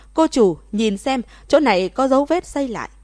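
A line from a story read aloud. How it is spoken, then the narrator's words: Shouting. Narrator (Vietnamese): Người kiểm tra hét lên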